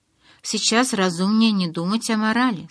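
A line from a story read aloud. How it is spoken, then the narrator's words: Plain. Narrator (Russian): сказал Карлайл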